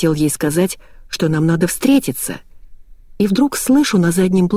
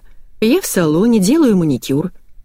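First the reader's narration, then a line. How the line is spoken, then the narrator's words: Cheerful. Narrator (Russian): весело сообщила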